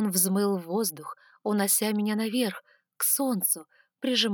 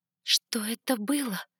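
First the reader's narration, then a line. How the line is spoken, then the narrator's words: Hoarse whisper. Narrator (Russian): хрипло прошептала я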